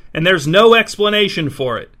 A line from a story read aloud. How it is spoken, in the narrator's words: shouted Mick